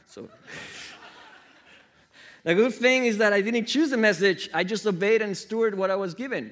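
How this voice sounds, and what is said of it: Noticeable accent. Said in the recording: “have you heard my accent? It's pretty bad.”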